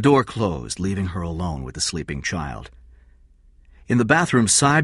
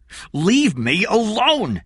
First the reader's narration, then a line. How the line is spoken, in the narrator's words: shouted